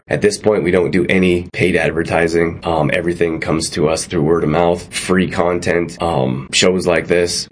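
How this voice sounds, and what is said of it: Hoarse, worn-out voice. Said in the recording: “My voice is pretty much gone anyways.”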